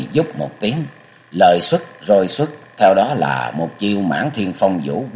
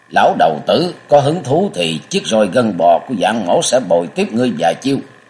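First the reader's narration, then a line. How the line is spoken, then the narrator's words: Deep-voiced shout. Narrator (Vietnamese): Dạng Thiên Bằng trầm giọng quát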